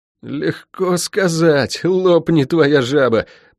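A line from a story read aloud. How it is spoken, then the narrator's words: Moaning. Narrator (Russian): простонал Лук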